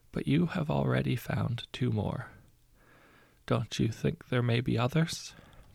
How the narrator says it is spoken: said quietly

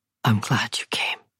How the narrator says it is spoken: whispered

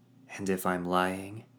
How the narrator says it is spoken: She scoffed

